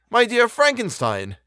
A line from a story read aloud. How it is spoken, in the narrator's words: exclaimed he